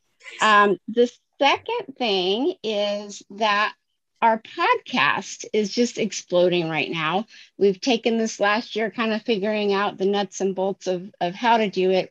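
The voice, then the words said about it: Strained, fading voice. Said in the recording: “I'm sorry, my voice is going.”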